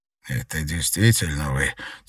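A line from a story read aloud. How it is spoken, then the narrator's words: Quiet frightened mumble. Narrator (Russian): тихо пробормотал он, увидев устрашающие маски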